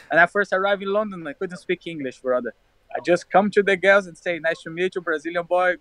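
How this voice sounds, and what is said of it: Brazilian accent in English. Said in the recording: “it's so cute, your accent ... It's better with that accent.”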